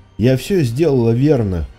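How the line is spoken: Forced out. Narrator (Russian): выдавила она

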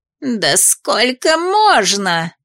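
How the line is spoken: Woman's wail. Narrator (Russian): взвыла женщина

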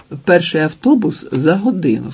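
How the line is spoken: Plain. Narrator (Ukrainian): сказала

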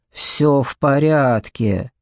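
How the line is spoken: Grumble. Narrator (Russian): проворчал Марлоу

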